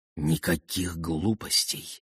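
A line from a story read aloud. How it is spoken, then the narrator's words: Whisper in ear. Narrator (Russian): прошептала ему на ухо Эдит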